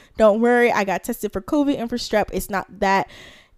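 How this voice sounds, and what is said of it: Congested, rough head-cold voice. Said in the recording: “I have a head cold ... So if you hear that my voice is disgusting, that is why”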